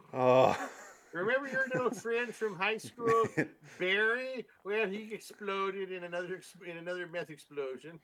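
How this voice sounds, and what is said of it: Put-on Canadian accent, old woman. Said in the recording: “I don't know why my grandma has a Canadian accent.”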